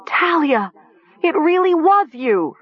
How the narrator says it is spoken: Nessa scream

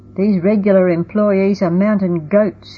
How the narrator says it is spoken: he groaned

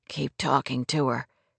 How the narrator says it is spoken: Clay whispered

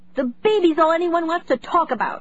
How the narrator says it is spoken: Zoe cried

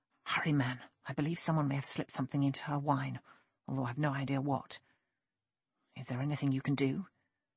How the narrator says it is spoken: Sinley ... whispered

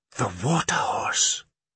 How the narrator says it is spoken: breathed Kirsty

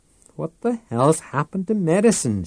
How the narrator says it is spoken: She exclaimed

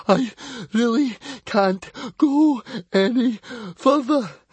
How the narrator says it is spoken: Fishlegs came to a panting halt and gasped

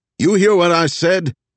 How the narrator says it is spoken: Elijah called out

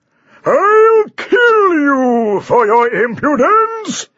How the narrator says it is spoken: bellowed Sir Basil

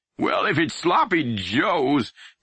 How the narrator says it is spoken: Pap groaned

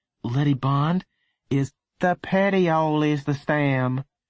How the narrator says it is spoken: said in a bored voice

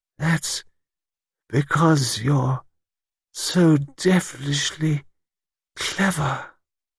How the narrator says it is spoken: Bridget said, still in the thick, muffled voice of a person heavily drugged

